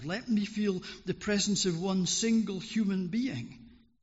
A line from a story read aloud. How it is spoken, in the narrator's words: howled